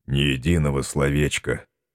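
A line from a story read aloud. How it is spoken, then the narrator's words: Sighing. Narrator (Russian): вздохнул он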